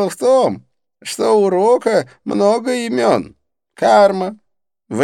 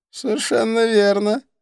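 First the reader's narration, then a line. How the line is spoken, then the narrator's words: Laughing. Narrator (Russian): рассмеялся Идрис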